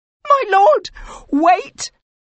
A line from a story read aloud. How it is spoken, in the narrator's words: You cried